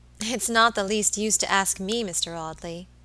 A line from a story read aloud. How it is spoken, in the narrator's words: she said